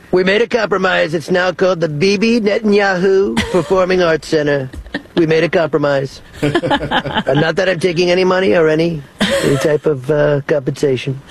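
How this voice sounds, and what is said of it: Imitates another person's voice. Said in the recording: “I love your Netanyahu impression. ... That sounds dangerously like Barney Rubble.”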